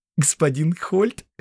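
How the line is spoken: Giggling. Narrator (Russian): хихикнула Фервида

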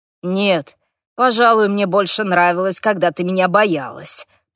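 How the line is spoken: Grumbled. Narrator (Russian): проворчал Хорвик

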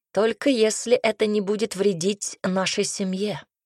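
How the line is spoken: Growled again. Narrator (Russian): снова рыкнул Айрон

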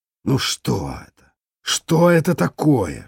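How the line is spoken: Hissing. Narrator (Russian): шипел он на сотрудников

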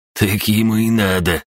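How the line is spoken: Scoffing snort. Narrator (Russian): хмыкнул Русый

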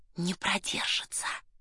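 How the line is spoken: Grumpy tone. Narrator (Russian): Тон у Эраста Петровича был такой брюзгливый

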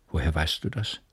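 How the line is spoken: Calm question. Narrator (German): fragte sie, schon ruhig geworden

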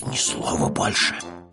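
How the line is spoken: Hiss. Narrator (Russian): прошипел Пэтсон

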